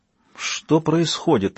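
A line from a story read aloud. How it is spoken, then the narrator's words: Strained, forced out. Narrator (Russian): выдавила Кейт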